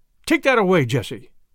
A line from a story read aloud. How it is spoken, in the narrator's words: Brighton's sister-in-law say, suddenly and sharply